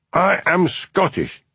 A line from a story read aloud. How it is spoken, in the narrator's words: he shouted